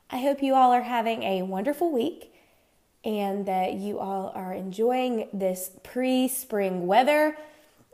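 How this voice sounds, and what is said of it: Nasal, congested sick voice. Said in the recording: “I'm a little bit under the weather ... if you hear some snarly in my voice or some, you know, nasally sounds”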